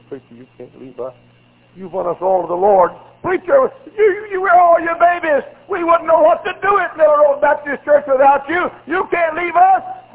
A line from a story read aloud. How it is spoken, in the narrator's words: cried and said